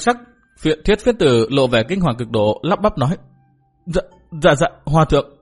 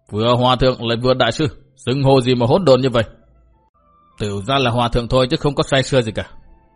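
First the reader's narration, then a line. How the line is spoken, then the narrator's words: Scolding monk shouting. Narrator (Vietnamese): Túy Hòa Thượng quát mắng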